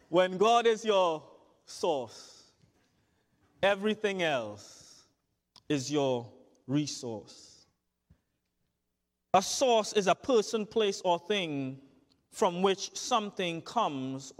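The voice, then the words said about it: Thick accent. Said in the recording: “my accent is ringing very thick right now with the word source”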